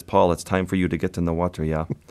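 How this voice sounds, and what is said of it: Thick put-on Swedish accent. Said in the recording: “In his thick Swedish accent.”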